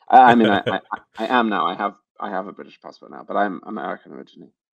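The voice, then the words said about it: British-sounding accent. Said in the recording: “I'm not actually British. I know my accent might sometimes lead you to believe that.”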